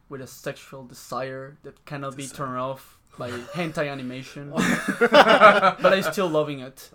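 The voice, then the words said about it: Spanish-accented English. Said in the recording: “accent. You have that wonderful ... accent. A lot of women love that accent, the Spanish accent.”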